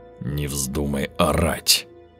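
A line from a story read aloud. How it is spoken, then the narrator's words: Dull, muffled voice. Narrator (Russian): глухо сказал Волгин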